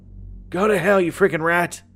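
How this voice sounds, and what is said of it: Older man screaming angrily. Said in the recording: “His voice had an accent that I couldn't quite recognize ... the older man screamed back”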